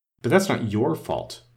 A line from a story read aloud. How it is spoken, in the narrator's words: the rose added kindly